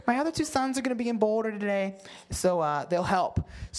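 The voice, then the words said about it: Imitates a mom's voice. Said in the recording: “This is my this is my mom voice.”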